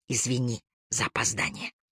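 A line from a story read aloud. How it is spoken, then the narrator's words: Whisper. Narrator (Russian): прошептал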